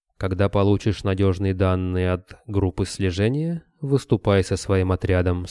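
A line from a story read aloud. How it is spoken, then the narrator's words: Plain. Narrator (Russian): сказал князь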